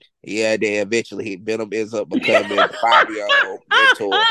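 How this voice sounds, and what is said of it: Usual voice. Nothing is said of it.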